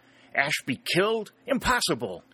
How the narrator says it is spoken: exclaimed

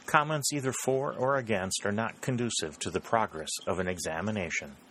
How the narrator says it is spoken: said the President quietly

